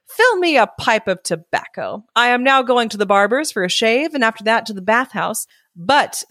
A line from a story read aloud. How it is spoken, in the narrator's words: says he, speaking very haughtily